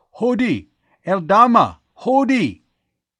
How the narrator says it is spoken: his arms were flung high as if to ward off, or perhaps welcome, something on the mountainside as he shouted

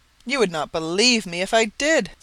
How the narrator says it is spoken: Sir Henry said, with one of the hearty laughs which seemed to come right out of his great lungs

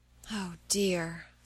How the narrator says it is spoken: sighed Meg

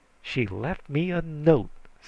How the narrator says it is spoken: snarled Aunt Henrietta

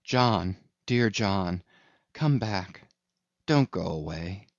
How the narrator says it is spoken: called softly

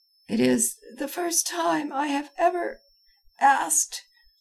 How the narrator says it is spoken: I faltered

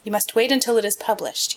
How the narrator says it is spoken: he said

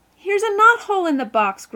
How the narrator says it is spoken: groaned Phil

